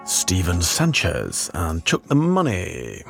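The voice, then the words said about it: Radio announcer voice. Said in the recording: “I don't know why I did that voice... It's a new radio voice I've discovered.”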